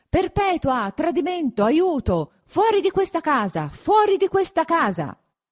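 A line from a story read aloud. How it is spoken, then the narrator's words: Still shouting. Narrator (Italian): gridando tuttavia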